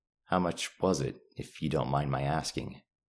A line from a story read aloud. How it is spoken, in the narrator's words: replied calmly